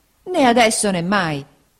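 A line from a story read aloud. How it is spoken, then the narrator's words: Exclamation. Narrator (Italian): esclamò Peggotty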